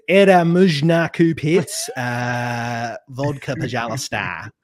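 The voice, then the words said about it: Russian in a rough Australian accent. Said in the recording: “it just ends up in this, you know, really rough Australian accent”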